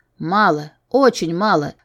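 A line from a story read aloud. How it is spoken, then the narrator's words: Displeased growl. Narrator (Russian): прорычал недовольный Алан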